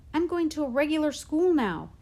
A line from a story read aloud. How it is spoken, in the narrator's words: he told me excitedly